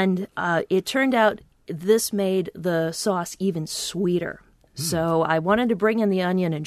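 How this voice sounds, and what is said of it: Usual voice. Nothing is said of it.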